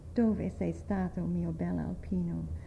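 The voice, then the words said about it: Melancholy chanting voice. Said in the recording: “In a melancholy voice I chanted it”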